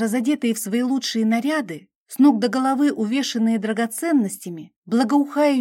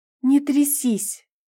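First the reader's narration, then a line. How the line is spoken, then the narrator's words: Quiet confident princess demand. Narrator (Russian): Тихо и уверенно потребовала принцесса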